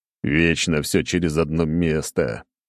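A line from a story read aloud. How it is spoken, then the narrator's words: Groaning. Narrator (Russian): простонал я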